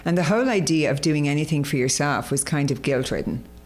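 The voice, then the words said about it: Irish accent. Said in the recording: “I was brought up in Ireland, as you can probably hear by the accent”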